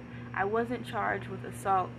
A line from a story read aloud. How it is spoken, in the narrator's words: Hines said